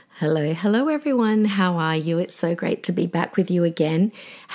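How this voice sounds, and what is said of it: Husky, strained voice. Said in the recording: “my voice is a little bit off this week ... I've been a little bit under the weather ... my voice is a little bit Demi Moore”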